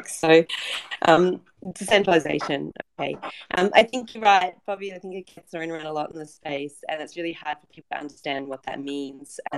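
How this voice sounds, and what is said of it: Congested voice from a cold. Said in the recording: “Excuse my voice, I sound a little bit funny. But I'm just recovering from a lovely cold”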